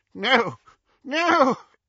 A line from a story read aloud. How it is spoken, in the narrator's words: He choked and retched